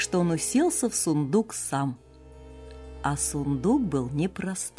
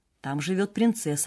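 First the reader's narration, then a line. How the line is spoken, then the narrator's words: Plain. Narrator (Russian): ответила кормилица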